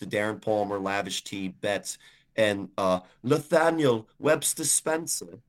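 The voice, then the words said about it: Badly done put-on accent. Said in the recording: “I haven't done that accent in a while. ... It's terrible, so I won't continue to do it.”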